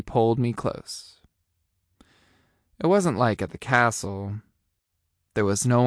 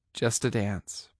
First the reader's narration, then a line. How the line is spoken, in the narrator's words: I said